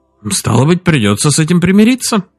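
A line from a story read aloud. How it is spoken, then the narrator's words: Cheerful tone. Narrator (Russian): бодрым тоном произнес Дин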